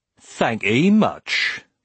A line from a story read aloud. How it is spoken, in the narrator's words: he said, in a mocking tone